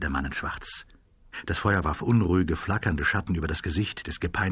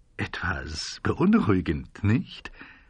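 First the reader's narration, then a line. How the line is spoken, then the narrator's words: Man suppressing a chuckle. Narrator (German): sagte der Mann in Schwarz und schien ein Kichern zu unterdrücken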